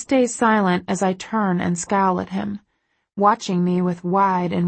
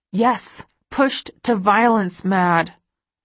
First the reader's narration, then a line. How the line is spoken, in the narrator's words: I say through gritted teeth